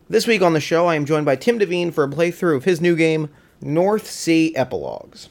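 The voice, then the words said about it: Hoarse, congested voice. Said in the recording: “I have a cold and I'm losing my voice a little bit”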